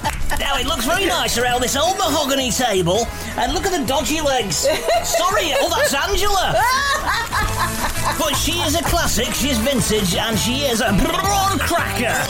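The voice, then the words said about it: Strained, exaggerated impression of a TV presenter. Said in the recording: “you kind of strain your voice... impersonation of David Dickinson is more Keith Lemon's impersonation of David Dickinson... a bit more exaggerated probably than possibly you would do it if you were being David Dickinson... It sounds like you're about to have a shit... There's a certain bit of constipation about it.”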